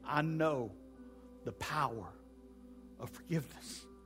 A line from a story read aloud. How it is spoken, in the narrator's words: She whispered slowly